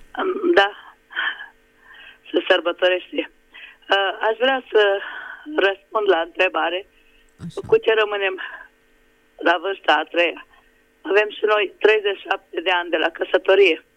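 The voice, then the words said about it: Slightly hoarse female voice. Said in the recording (Romanian): “Sunt un pic răgușită.”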